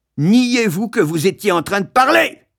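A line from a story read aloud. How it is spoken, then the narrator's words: Captain yelling. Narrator (French): hurla le capitaine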